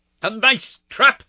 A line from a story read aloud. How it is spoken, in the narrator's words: cried the high, snarling voice